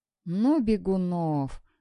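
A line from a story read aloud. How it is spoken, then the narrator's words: Exclaiming, then laughing. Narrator (Russian): воскликнула она и начала смеяться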